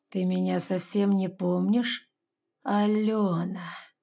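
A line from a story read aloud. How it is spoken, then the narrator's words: Man's drawn-out voice. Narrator (Russian): Мужчина протянул мое имя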